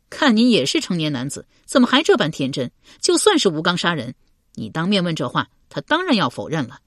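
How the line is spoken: Laughing. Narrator (Chinese): 程继笑道

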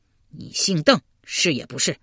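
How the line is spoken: Angry, through gritted teeth. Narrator (Chinese): 刘玲咬咬牙，愤然道

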